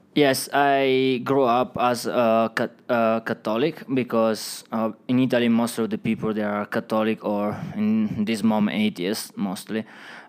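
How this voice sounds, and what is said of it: Italian accent. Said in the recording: “I know you're from Italy. We can hear the accent”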